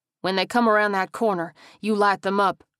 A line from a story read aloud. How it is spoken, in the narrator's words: Frank said firmly